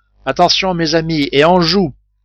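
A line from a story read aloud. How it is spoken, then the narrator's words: Shouted. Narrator (French): cria Cyrus Smith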